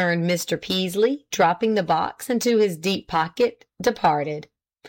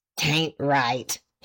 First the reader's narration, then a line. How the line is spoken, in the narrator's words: he muttered